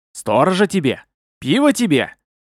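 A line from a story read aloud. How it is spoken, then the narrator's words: Incoherent shout. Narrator (Russian): бессвязно выкрикнул глава Мектеба в лицо перепуганному Аракчи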